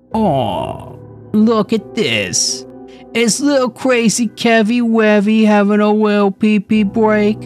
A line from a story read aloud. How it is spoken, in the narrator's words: sneered